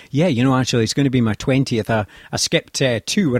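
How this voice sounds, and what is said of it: Scottish Fife accent mixed with American. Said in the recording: “I have a horriblest accent. I have this blend between Fife and Los Angeles ... I go straight into the American cadence. It's really nasty.”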